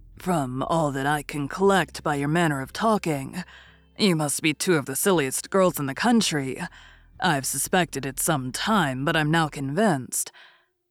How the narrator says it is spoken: Bennet coolly observed

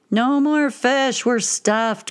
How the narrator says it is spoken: groaned a man

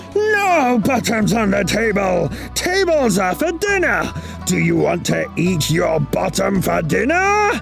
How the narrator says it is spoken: Chen turned the color of a raspberry, and his eyebrows looked like an arrow sharp enough to poke through an apple, and he roared

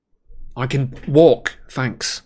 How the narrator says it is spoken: said Harry irritably

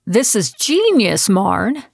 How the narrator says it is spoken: cried out when he saw my design wall

